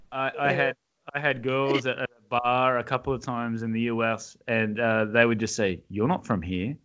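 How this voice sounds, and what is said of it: Australian accent. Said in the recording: “I just love that accent ... You just gotta have an accent ... I'm from Australia.”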